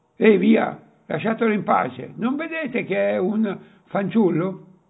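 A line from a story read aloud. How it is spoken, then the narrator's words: Exclaimed. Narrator (Italian): esclama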